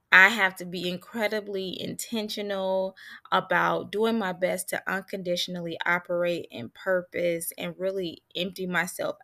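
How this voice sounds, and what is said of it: Somber, subdued voice. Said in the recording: “you can even hear how somber my voice is”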